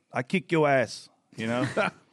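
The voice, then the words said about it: Put-on Spanish accent. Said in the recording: “read them in a Spanish accent?”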